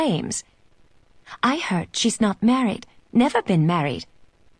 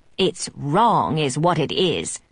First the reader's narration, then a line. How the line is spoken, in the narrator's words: Ada grumbles